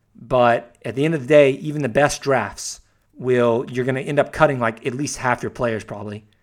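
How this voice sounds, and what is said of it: Strained, worn-out voice. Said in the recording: “I'm losing my voice.”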